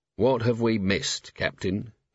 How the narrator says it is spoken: he said, in a faraway voice

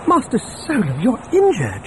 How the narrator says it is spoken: C-3PO exclaimed on seeing dried blood on his hands and face

